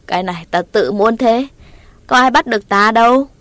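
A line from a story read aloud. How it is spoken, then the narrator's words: Laughing loudly. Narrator (Vietnamese): Dĩ nhân cười lớn đáp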